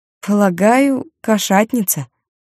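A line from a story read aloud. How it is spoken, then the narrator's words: Uncertain. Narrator (Russian): неуверенно сказала она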